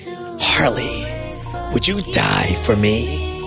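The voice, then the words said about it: Imitates the Joker's voice. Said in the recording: “my impersonation”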